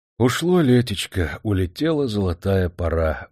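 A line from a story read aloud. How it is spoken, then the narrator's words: Sighing. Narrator (Russian): вздохнул Черепанов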